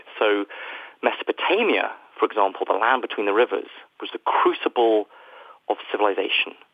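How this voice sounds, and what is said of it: British accent. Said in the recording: “the United Kingdom, where, as you can probably tell from my accent, I am from”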